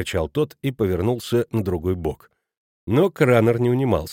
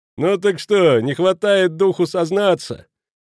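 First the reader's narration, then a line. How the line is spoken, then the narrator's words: Breathless, tearful pleading. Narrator (Russian): Халич, от волнения уже задыхаясь, взмолился плаксивым голосом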